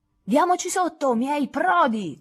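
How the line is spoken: Captain's shout. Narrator (Italian): gridò il capitano

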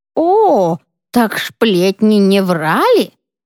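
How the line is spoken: Cheerful, heavy lisp, old woman. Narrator (Russian): Секретарша была явно в приподнятом настроении и сильно шепелявила, как и многие милые старушки

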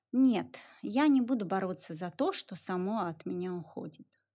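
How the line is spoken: Quiet reply. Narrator (Russian): тихо ответила София

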